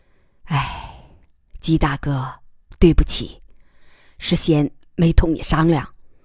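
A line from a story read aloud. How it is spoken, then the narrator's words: Sighing. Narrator (Chinese): 楚天乐叹息着说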